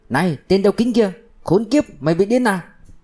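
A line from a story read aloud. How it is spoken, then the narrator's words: Furious breathless shout. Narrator (Vietnamese): Tạ Nam hỗn hào hỗn hển phẫn nộ hét to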